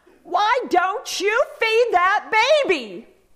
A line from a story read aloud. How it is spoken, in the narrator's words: the elderly neighbor shouted in Spanish